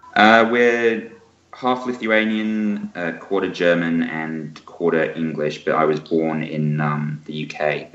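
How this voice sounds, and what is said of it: British accent. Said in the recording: “you got a very British accent”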